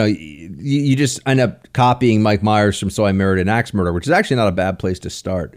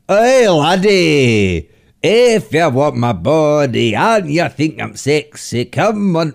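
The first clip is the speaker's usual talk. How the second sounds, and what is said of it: Put-on Scottish accent. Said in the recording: “it's like a Scottish accent ... you need to work on your Scottish accent”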